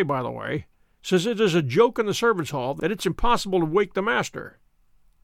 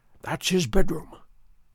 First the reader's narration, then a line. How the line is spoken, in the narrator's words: Holmes whispered